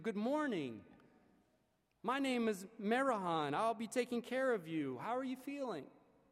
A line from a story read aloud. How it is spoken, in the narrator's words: said as cheerfully as I had been trained to do